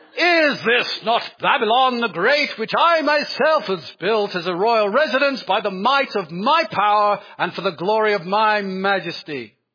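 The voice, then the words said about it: Put-on English accent. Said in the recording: “Why do they all have English accents?”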